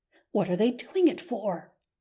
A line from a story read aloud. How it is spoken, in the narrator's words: he whispered to Phil, in his consternation